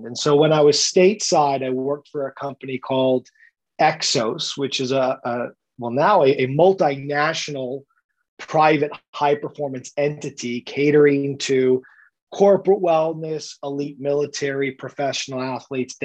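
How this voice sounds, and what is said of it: American accent. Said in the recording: “as you can hear with my accent, had me start in the United States”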